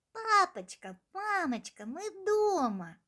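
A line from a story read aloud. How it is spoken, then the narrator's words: Joyful exclamation, wolf cubs. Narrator (Russian): радостно воскликнули волчата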